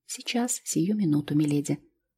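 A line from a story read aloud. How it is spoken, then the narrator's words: Trembling mutter. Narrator (Russian): Бедная девушка затряслась ... пробормотала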